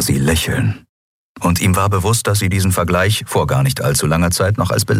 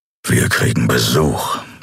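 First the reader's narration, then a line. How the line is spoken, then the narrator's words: Growling. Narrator (German): knurrte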